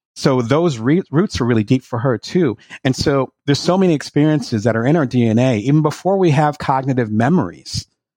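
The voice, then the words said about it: Fast-talking South Jersey accent. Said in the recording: “just like how I'm talking fast right now, this is my South Jersey accent,”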